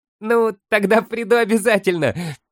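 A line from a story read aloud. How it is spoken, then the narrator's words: Laughing. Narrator (Russian): рассмеялся Фолка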